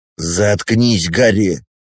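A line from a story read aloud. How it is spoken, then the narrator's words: Angry bark. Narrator (Russian): Злобно рявкает Райан на друга, который, видимо, раскрыл то, что должно было оставаться тайной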